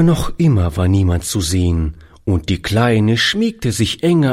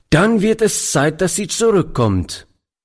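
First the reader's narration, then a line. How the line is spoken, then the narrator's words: Old man calling out. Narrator (German): rief der Alte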